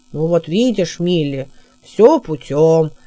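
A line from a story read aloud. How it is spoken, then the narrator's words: Deep booming bass. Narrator (Russian): пробасил отец Тук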